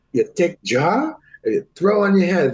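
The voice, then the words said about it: Put-on Chinese accent. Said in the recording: “he's very Chinese... Excuse the accent. That's how he talks.”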